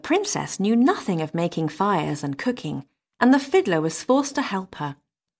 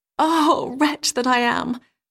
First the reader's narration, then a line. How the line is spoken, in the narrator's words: sighed she